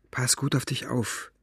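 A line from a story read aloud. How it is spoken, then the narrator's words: Whisper. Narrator (German): flüsterte sie Gwyn zu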